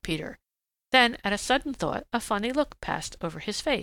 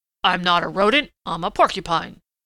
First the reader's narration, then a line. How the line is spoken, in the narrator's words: grunted Prickly Porky indignantly